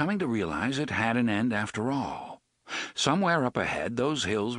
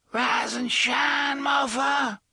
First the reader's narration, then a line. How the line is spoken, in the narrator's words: Detta screeched